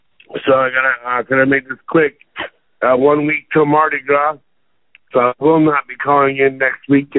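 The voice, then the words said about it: Hoarse, weak, nearly lost voice. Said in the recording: “I lost my voice.”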